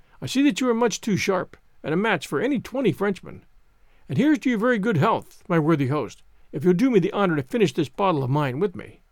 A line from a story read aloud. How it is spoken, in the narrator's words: assented the stranger cheerfully